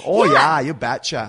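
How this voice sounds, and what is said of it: Fargo-style Minnesota accent. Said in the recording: “Winnipeg accents ... We are more of like the movie Fargo ... That's kind of like the mid-Canada accent ... like the whole Minnesota accent”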